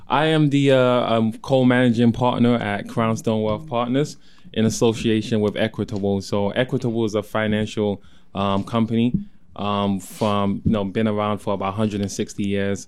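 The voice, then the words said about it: London British accent. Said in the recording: “I do have an accent, ... I'm originally from London, UK. ... Not a great accent, but. It's not the worst.”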